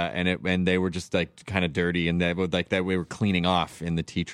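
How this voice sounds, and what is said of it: Usual voice. Nothing is said of it.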